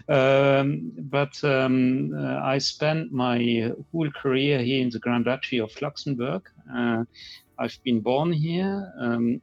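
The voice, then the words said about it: Luxembourgish-accented English. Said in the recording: “you hear from my accent that I'm a Luxembourger”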